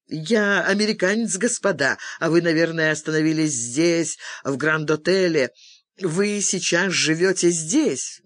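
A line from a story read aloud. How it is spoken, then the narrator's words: Awkward giggle, then continuing. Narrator (Russian): Не в попад хихикнув, он продолжил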